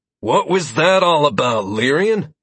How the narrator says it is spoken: Lazarus asked in a tired voice

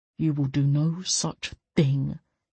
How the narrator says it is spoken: he said quietly

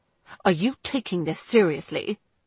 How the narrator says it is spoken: he asked coldly

